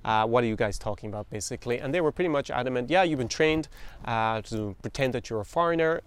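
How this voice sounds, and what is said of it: Irish accent. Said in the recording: “you guys can hear my accent, and I'm obviously not Russian whatsoever ... I'm really Irish”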